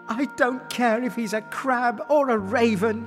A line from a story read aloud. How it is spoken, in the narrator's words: she cried with joy